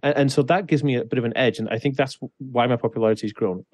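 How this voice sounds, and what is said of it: Transatlantic British-American accent. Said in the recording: “a lot of people like hearing my voice because it's very transatlantic ... are you American? Are you British? I'm like, kind of a bit of both ... I kind of sound a little bit American-y”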